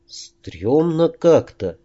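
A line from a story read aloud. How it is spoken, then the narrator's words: Uncertain. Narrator (Russian): неуверенно произнес Дедал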